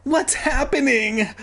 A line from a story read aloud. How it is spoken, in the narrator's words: I cried, yelling out